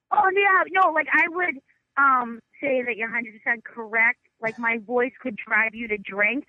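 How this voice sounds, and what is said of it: Thick East Coast accent. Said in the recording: “your accent is so thick that I thought it was a bit ... I thought you were doing a voice ... Representing East Coast”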